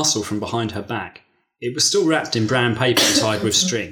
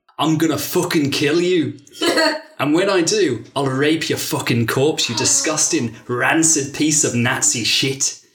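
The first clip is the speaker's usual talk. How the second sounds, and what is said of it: Aggressive put-on Mancunian accent. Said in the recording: “Is that a bit Biker Grove accent? ... But it went really Mancunian at the end. You do aggressive in Mancunian well.”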